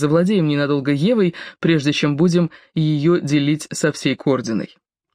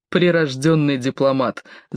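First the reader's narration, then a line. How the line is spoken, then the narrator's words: Prince laughing. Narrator (Russian): засмеялся князь Арманд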